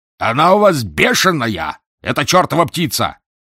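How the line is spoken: Rough yelling. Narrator (Russian): заорал капитан грубым голосом

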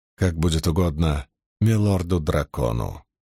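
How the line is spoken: Gloomy reply. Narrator (Russian): мрачно отозвался Наришма

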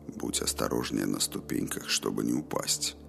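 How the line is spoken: Quiet reply. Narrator (Russian): так же тихо ответил ей Роланд

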